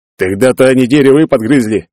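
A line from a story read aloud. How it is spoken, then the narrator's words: Incredulous snort. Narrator (Russian): недоверчиво фыркнул один из собеседников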